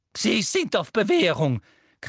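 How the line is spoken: Shrieking. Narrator (German): kreischte Professor Umbridge

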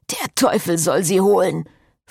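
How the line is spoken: Hissing priest. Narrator (German): fauchte der Priester

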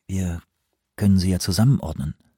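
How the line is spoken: Quiet. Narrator (German): sagte Anawak leise

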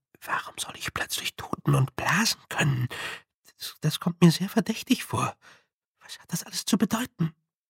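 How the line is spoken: Whispering. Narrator (German): flüsterte der Kröte zu

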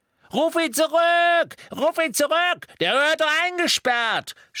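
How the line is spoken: Shout. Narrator (German): schrie Mandankes

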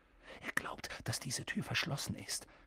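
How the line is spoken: Whispered. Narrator (German): flüsterte Harry

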